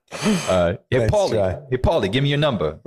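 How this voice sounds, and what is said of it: Bad put-on New Jersey accent. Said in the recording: “I just tried a Jersey accent... That was the worst accent.”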